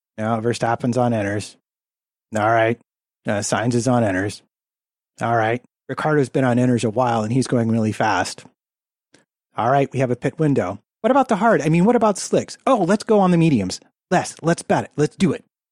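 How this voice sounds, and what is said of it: Impression of a team radio exchange. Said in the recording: “on the radio, this is literally my best impression.”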